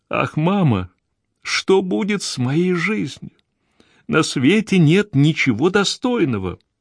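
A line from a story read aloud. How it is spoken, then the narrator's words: Tearful speech. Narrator (Russian): Гвендолин … проговорила сквозь слезы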